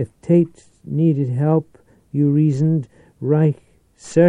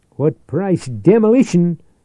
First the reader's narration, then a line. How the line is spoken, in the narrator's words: Atkins answered fiercely